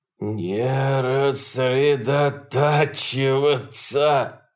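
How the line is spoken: Breathless exhale. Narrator (Russian): выдохнул он снова

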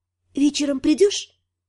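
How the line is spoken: Quiet question. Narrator (Russian): спросила тихо

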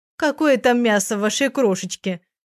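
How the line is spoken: Laughing. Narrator (Russian): засмеялась Оля

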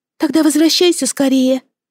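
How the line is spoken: Sighing. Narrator (Russian): вздохнула Мелоди

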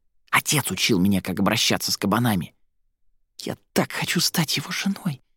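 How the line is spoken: Whisper. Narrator (Russian): прошептала Фелла

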